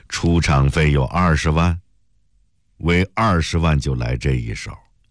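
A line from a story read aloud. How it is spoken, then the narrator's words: Cold. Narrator (Chinese): 陆成伟冷冷地说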